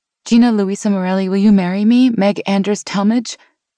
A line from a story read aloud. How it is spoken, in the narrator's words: she blurted